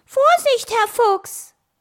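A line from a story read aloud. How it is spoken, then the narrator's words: Called out. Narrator (German): rief Bostel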